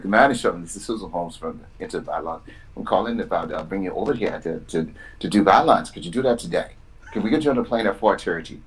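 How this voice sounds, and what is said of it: Imitates another person's hard-to-understand accent. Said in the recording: “I couldn't understand that the accent.”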